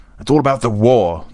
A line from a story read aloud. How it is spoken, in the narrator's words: the Count shouted down the table